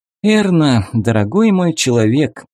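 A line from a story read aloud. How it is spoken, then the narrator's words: Sighing. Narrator (Russian): вздохнула Вика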